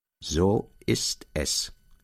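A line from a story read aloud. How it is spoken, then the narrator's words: Slow answer. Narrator (German): antwortete der Onkel langsam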